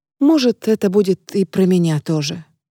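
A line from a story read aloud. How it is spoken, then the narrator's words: Quiet woman's voice. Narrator (Russian): тихо добавляет женщина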